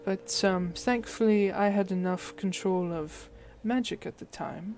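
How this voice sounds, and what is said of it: Slipping put-on German accent. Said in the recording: “I'm losing the German accent”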